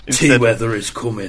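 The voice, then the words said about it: Sean Bean impression, good accent. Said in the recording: “did an impression of Sean Bean saying the catchphrase of Game of Thrones ... That's such a good accent, isn't it? I love his accent.”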